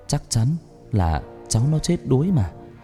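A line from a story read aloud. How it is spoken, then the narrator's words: Old woman muttering. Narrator (Vietnamese): Bà Thoa lắc đầu miệng lẩm bẩm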